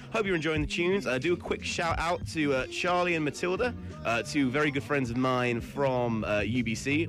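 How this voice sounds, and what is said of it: British accent. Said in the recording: “from Britain, if my accent didn't give it away already”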